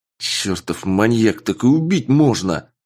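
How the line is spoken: Angry growl. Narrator (Russian): зло прорычал я

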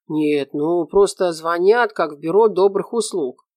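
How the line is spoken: Grumbled. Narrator (Russian): пробурчал Наполеонов

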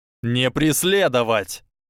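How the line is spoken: Shouted order to soldiers. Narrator (Russian): закричал Драко своим солдатам

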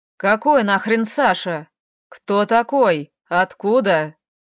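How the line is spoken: Menacing question. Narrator (Russian): Спросила она грозно

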